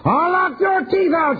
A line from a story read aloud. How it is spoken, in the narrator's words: screamed with a wild look in her eyes